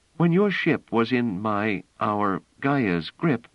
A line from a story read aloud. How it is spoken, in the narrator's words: she said sadly